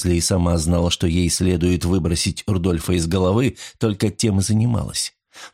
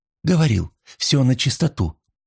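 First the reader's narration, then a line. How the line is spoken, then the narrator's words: Sigh. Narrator (Russian): вздохнула Анна Резли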